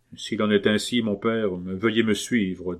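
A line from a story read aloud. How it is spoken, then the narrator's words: Firm voice, old nobleman. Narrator (French): dit le vieux gentilhomme d'une voix ferme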